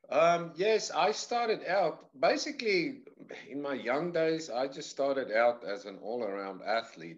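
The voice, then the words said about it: South African accent. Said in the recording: “I'm from South Africa originally... my accent drifted like a slight little bit and then got stuck”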